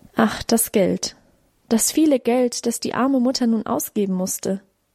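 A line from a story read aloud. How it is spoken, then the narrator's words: Sighing. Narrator (German): seufzte auch auf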